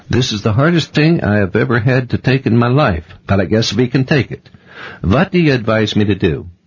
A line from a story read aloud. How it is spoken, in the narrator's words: he said at last, in a Scandinavian accent